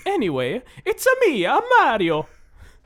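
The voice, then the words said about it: Mario character voice. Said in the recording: “doing a Mario impression”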